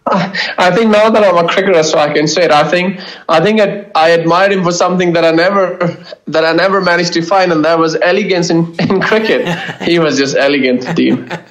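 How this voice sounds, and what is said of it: Slight Scottish accent. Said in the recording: “a bit of a Scottish accent of yours, also comes through, which is I find lovely to listen to”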